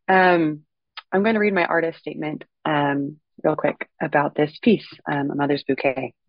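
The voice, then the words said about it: Voice sounds unwell. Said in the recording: “apologize for my voice. I'm a little bit under the weather.”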